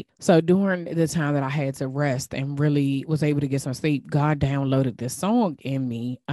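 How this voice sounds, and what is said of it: DMV regional American accent. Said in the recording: “my DMV accent be messing some stuff up”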